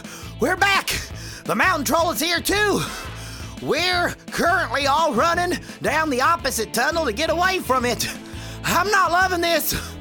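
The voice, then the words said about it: Breathless, out-of-breath speech. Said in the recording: “I'm out of breath”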